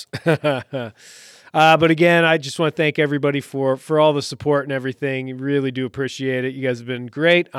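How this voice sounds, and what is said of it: Voice starting to go hoarse. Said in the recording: “my voice is starting to go hoarse.”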